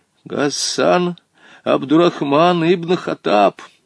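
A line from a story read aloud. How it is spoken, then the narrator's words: Trembling voice. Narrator (Russian): сказал дрожащим голосом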